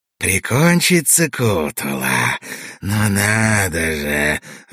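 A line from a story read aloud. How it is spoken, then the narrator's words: Hoarse voice from behind. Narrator (Russian): раздался сиплый голос за нашими спинами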